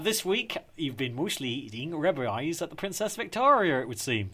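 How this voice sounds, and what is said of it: Put-on West Country accent. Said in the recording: “decided to be permeated by a West Country accent there”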